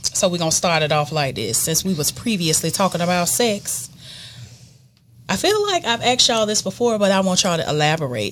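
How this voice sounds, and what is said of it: Soft, gentle speaking voice. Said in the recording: “in my soft voice.”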